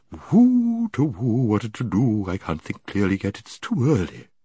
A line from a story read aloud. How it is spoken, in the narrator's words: The bird muttering to itself